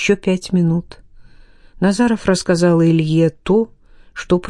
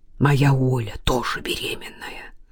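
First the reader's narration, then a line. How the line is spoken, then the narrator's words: Whispered. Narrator (Russian): прошептал Илья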